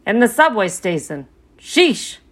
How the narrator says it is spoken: the bird muttered

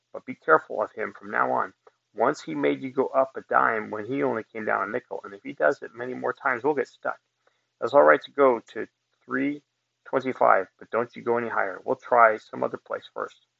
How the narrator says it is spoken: whispered

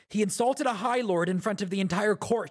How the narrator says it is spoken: Elokar said

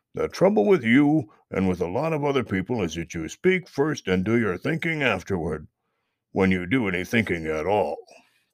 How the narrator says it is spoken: grunted old Mr

